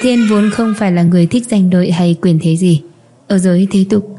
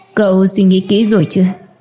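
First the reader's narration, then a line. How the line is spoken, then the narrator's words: Stern question. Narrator (Vietnamese): Thi Mạc nghiêm giọng hỏi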